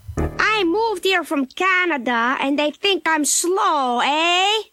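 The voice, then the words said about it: Slowed-down voice with put-on accent. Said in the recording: “with my slowed down voice, and if I can't hide my accent, this is what I'm going to sound like”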